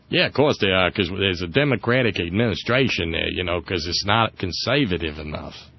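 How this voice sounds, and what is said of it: Put-on unidentified accent. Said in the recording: “I don't know whose accent I'm doing here. I'm just funning.”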